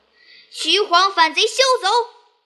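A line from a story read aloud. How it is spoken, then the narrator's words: Furious shout. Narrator (Chinese): 凤大怒，大叫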